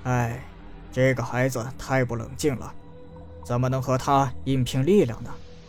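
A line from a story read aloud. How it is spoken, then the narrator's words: Sighing. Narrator (Chinese): 司马长风叹道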